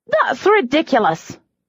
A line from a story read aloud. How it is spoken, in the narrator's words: she spat